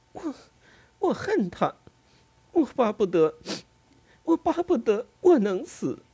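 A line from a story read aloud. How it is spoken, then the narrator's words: Sobbing, breathless. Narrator (Chinese): 在抽泣中，他上气不接下气地说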